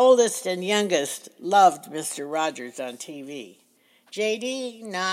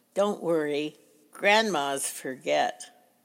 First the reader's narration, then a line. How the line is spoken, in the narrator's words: softly said